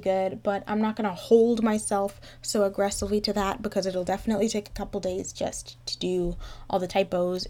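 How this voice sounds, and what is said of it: Sick-sounding voice. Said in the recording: “my voice sounds like this. I think I'm probably just getting sick”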